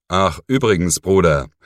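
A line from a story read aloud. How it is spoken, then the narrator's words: Calling over shoulder. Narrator (German): rief er ihm über die Schulter zu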